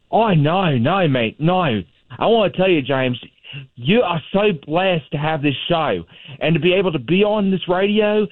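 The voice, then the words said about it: Australian accent. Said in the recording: “we have a real accent ... Sounds like my friend Austin making fun of Australians”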